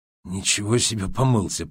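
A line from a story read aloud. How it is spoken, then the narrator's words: Whispered. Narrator (Russian): прошептал он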